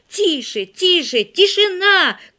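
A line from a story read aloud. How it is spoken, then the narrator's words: Shout. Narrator (Russian): крикнул Игорь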